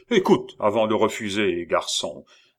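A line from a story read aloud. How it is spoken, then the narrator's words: Condescending, superior tone. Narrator (French): répliqua le commis voyageur d'un ton de supériorité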